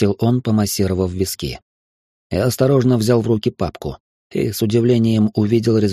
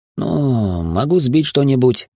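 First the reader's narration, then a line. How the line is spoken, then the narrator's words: Uncertain. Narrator (Russian): неуверенно сказал я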